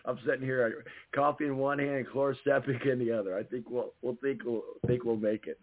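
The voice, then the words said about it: Strained, nearly lost voice. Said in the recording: “Dealing with the stuff in my throat ... My voice is about gone.”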